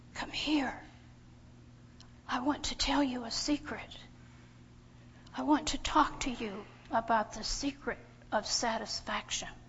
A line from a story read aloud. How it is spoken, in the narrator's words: whispers